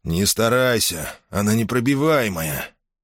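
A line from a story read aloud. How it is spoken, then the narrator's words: Mechanical hoarse wheeze. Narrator (Russian): Как-то машинально прохрипел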